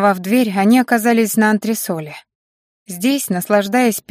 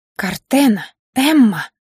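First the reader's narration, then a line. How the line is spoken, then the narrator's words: Hissed. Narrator (Russian): прошипела ее сопровождающая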